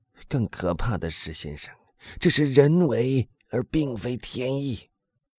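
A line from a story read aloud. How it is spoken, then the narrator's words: Hoarse voice. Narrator (Chinese): 他用一种嘶哑的声音说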